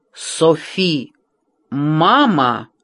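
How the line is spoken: Indignant. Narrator (Russian): Тем же возмущенным тоном ответила София

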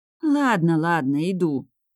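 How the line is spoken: Moaning. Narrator (Russian): простонала я

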